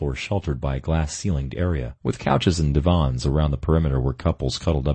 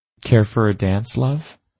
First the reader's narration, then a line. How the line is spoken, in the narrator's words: purred